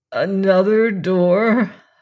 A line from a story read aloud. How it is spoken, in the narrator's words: I groaned